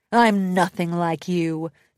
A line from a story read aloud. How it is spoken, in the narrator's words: Tempest growled with disdain